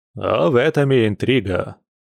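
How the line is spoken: Jaunty snort, narrator. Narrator (Russian): залихватски хмыкнул рассказчик

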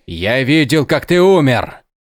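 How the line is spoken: Shouting out. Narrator (Russian): выкрикнул друид

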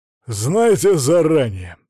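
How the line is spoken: Very loud bark. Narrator (Russian): Сварь гаркнув так громко

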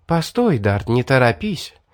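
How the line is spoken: Smiling girl's soft charming voice. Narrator (Russian): сказала улыбающаяся девушка своим чарующим мягким голосом

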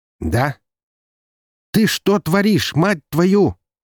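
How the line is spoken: Yelling through a speaker. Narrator (Russian): заорал из динамика голос Максима

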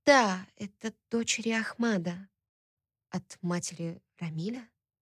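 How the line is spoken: Trembling voice. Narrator (Russian): Дрожащим голосом спросила я

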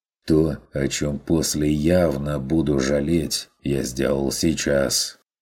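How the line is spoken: Muttering. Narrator (Russian): буркнул Ван Ален

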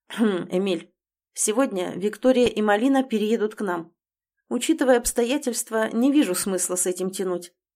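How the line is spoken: Calm, peremptory after throat-clearing. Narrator (Russian): откашлившись, говорит Назар Егорович спокойным, но безапелляционным тоном

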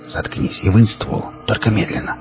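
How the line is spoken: Whispered again. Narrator (Russian): снова прошептал я

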